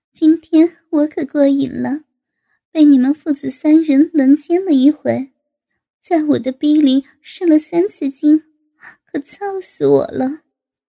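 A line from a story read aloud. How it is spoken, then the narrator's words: Laughing. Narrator (Chinese): 高志兴 笑道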